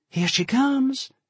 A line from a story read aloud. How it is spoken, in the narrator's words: Jen announced excitedly